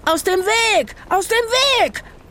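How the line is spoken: Shouted. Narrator (German): Rufus … schrie

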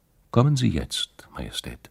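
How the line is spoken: Calm, friendly. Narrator (German): Kathrin … freundlich zum König gesagt

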